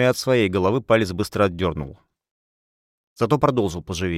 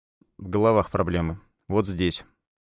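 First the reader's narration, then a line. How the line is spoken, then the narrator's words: Dry. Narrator (Russian): сухо сказал папа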